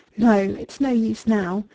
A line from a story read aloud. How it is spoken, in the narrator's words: dropped on the Chesterfield in a collapse, moaning